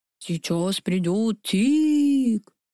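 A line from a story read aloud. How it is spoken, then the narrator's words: Mocking, sepulchral voice. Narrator (Russian): передразнила я его за могильным голосом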